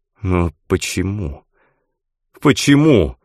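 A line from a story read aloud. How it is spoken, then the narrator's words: Pleading. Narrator (Russian): взмолился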